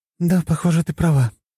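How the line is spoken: Sighing. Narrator (Russian): вздохнула Твин

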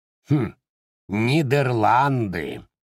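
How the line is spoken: Mocking, mouth full. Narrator (Russian): насмешливо проговорил с полным ртом Боб

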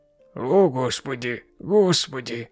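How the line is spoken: Tired muttering. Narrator (Russian): Устало бормотал он себе под нос

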